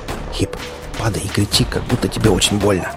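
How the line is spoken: Whisper. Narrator (Russian): прошептал

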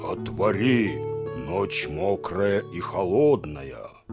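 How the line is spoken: Deep bass voice. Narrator (Russian): Кто-то басом ответил

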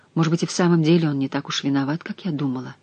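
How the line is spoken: Muttered. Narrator (Russian): пробормотала она

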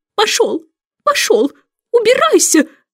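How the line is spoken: Shouting. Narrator (Russian): закричала она

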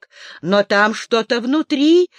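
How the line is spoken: Excited objection. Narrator (Russian): взволнованно возразил Колин

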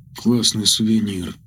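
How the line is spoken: Quiet young man. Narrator (Russian): тихо произнес парень

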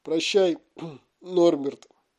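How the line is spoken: Choked, breaking voice. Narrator (Russian): срывающимся голосом выдавил из себя Хагрид

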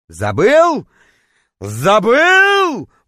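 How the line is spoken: Roaring, howling. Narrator (Russian): взревел, точнее, даже завыл я

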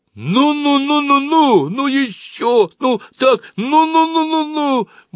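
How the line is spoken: Sudden shout. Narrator (Russian): он вдруг закричал

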